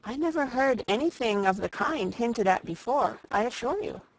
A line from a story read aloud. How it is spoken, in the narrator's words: said Eleanor